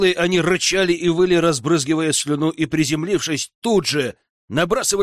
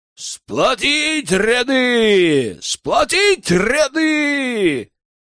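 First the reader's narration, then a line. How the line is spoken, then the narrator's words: Thundering battle cry. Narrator (Russian): Прогремел клич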